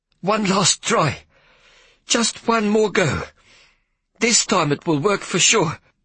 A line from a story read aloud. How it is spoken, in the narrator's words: Big Hetty panted, her voice not sounding too hopeful